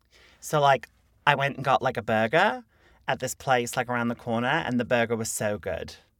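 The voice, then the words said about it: Put-on Australian accent, not very good. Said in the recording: “I like to pretend that I can do a good Australian accent... I like to pretend that it's good. It's probably not good... It has potential.”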